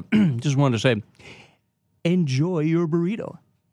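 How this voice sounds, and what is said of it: Imitates another person's voice. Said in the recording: “impersonation”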